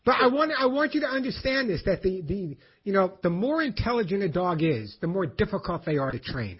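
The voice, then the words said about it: New York accent. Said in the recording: “It's my New York accent.”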